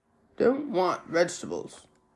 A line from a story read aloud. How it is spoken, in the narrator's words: Ra muttered irritably